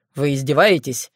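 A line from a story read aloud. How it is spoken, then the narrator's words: Angry question. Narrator (Russian): сердито уточнил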